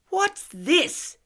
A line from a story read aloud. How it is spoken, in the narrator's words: he shouts